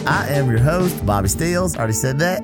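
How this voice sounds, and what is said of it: Silly put-on voice. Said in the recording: “doing that stupid voice ... Yeah, it's pretty dumb.”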